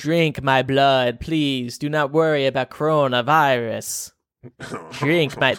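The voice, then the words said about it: Bad vampire impression voice. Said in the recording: “my bad vampire impression.”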